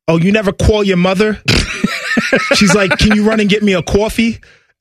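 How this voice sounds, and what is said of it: Imitated New Jersey accent. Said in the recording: “my mother and my father are both from New Jersey. My mom still has the accent.”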